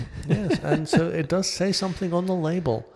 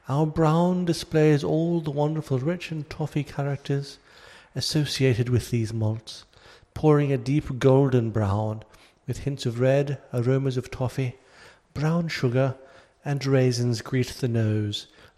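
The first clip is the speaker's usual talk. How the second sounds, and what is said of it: Put-on English accent. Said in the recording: “I'll do my darndest for an English accent.”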